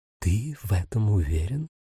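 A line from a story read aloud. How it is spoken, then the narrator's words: Quiet icy tone. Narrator (Russian): поинтересовалась Рос тихим ледяным тоном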